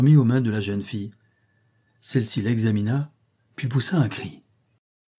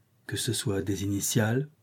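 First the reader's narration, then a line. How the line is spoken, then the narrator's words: Soft. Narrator (French): dit doucement Leven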